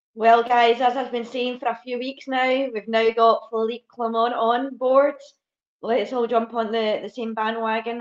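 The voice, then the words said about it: Hoarse, croaky voice. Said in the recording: “sorry, I've got a, a frog stuck in my throat ... I've got a frog in my throat”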